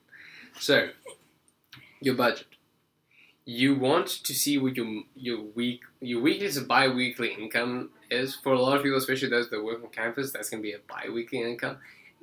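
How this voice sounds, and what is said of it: South African accent. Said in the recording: “I might have an accent, but I do not come from another world. I am just South African.”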